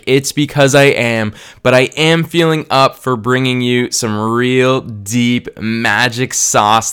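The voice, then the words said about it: Sick-sounding voice. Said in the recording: “if you can hear a difference in my voice and if I sound sick,”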